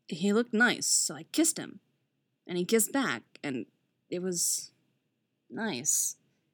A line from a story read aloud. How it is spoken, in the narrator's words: he murmurs, a distracted note slipping into his voice